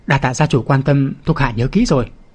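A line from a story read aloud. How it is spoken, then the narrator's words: Choked, trembling voice. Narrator (Vietnamese): Đại cung phụng toàn thân run rẩy nghẹn ngào nói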